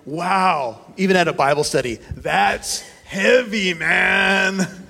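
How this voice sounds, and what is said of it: Imitates another person's voice. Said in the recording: “my best Raul Reese impression”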